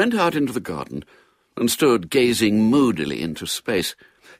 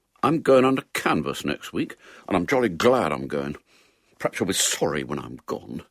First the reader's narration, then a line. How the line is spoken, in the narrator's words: he muttered